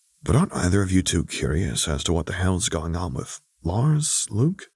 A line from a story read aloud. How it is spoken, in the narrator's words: he whispered under his breath